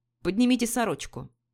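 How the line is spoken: Commanding. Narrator (Russian): повелительным тоном сказал

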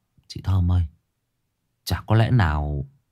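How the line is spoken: Quiet low voice. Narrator (Vietnamese): thằng Thành nhỏ giọng

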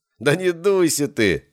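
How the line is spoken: Short laugh. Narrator (Russian): хохотнул Стас

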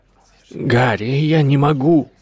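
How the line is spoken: Old man's anguished exclamation. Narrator (Russian): воскликнул старый волшебник, в его голосе слышалась мучительная боль

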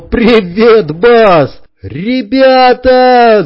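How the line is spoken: Shout. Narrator (Russian): крикнул

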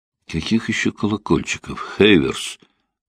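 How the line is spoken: Sleepy mutter, stifled yawn. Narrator (Russian): пробормотал он, подавляя зевок

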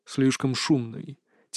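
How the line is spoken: Quiet reply. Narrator (Russian): тихо ответил Иван

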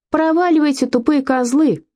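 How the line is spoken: Shout. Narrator (Russian): крикнул он

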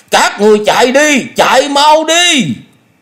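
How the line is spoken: Loud shout. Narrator (Vietnamese): miệng hét lớn

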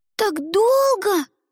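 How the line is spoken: Yelled. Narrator (Russian): заорал Димка

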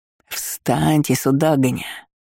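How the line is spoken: Angry hiss. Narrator (Russian): Аж прошипел от злости посол

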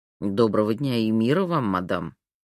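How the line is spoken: Uncertain greeting. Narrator (Russian): неуверенно поприветствовал он ее

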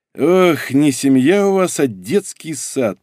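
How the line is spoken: Grumbling. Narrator (Russian): проворчал Дубовой

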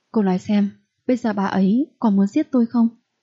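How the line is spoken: Frightened question. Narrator (Vietnamese): Tần Dĩ Duyệt khuôn mặt vẫn còn sợ hãi hỏi

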